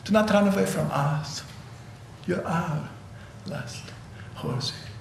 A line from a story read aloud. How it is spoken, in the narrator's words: Akhmatova, sensing danger, whispered